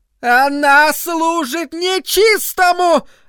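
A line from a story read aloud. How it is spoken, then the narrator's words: Yelling. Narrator (Russian): опять заорала миссис Кармоди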